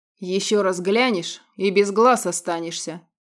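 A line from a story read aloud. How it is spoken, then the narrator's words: Low wolf growl. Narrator (Russian): низко прорычал волк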